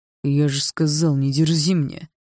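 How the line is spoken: Through gritted teeth. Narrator (Russian): сквозь зубы проговорил Барс

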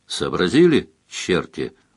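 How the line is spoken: Tired question. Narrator (Russian): устало спросил Сварог

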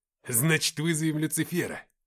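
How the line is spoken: Joyful exclamation. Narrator (Russian): радостно воскликнул Никита

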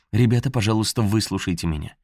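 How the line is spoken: Said quickly. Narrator (Russian): быстро сказала

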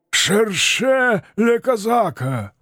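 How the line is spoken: Hoarse shouting. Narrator (Russian): хрипло кричали скелеты

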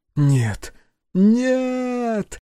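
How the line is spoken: Helpless howling. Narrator (Russian): взвыла бессильно

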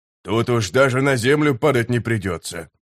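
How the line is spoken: Sapper grumbling. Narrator (Russian): проворчал сапер

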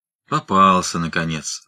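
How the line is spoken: Muttered. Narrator (Russian): буркнул Фит

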